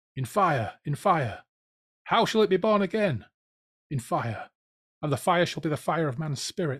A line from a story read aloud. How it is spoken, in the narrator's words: the Fireclown roared